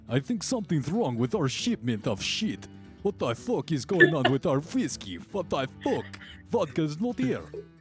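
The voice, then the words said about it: Put-on Russian accent. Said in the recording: “Slipped into a Russian accent.”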